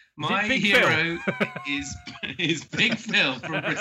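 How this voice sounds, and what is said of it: Usual voice. Nothing is said of it.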